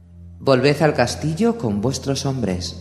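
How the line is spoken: Plain. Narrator (Spanish): dijo Avilar

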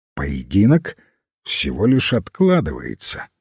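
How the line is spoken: Calm. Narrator (Russian): спокойно ответил лорд Пули

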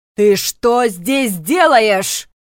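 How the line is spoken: Yelling. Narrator (Russian): сразу же завопил Шолли

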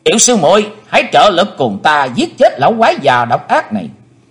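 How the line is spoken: Joyful loud shout. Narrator (Vietnamese): hoan hỷ quát to lên

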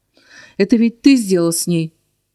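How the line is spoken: Menacing growl. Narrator (Russian): угрожающе рыкнул парень

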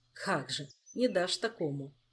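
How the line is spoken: Sighing. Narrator (Russian): вздохнул король

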